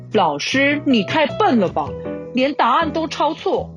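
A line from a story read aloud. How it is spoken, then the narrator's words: Loud. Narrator (Chinese): 亚斯也会立刻站起来大声说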